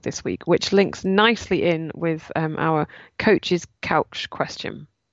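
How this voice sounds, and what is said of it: Voice with a cold. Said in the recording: “as you can maybe hear in my voice, I've got a bit of a cold”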